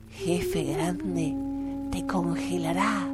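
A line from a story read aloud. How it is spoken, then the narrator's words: Furious whisper. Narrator (Spanish): Viento del Norte no podía contenerse de rabia, pero bajó su voz hasta susurrar y dijo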